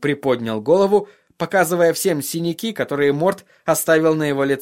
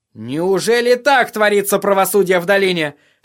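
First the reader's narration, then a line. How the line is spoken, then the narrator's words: Very loud outcry. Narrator (Russian): вскричал Тирион так громко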